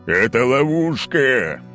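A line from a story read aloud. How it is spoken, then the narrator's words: Roared. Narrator (Russian): взревел Олимпий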